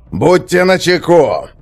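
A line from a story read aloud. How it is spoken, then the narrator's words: Roaring. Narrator (Russian): проревел сержант Хакон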